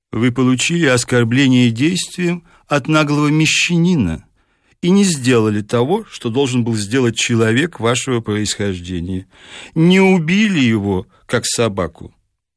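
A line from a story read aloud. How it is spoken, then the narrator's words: Slow clipped words. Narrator (Russian): Барон медленно отчеканил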